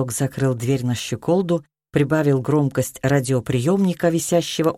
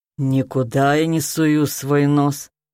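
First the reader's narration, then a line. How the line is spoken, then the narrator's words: Grumbling woman. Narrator (Russian): пробурчала толстая тетка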